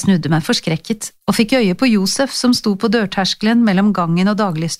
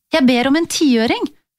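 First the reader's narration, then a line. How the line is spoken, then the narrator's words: Eager explaining. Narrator (Norwegian): forklarte jeg ivrig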